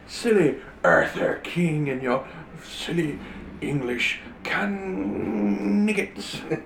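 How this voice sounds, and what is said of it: Outrageous fake French accent. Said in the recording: “I am French. Why do you think I have this outrageous accent?”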